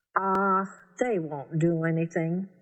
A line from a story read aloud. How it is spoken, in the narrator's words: Charlie said